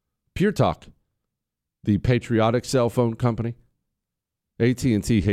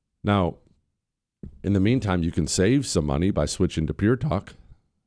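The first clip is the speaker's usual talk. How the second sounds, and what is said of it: Voice squeaks, upset. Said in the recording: “did my voice just squeak there? It's because I'm getting upset.”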